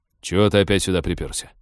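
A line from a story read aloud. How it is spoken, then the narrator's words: Growled. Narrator (Russian): рыкнул он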